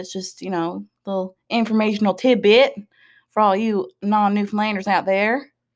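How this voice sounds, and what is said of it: Weird put-on Southern accent. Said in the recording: “I don't know why I just did a weird southern accent.”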